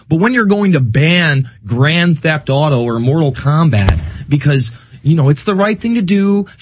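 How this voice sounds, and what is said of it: Drifting into a Texas accent. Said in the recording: “You're getting a Texas accent”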